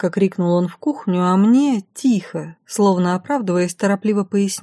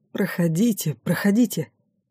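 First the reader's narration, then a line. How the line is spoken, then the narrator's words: Obsequious whisper. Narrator (Russian): подобострастно прошептал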